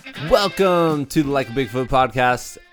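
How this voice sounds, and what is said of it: Classic radio DJ voice. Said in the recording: “that welcome that I just said was probably about as close to like the classic radio DJ voice than I'll ever do”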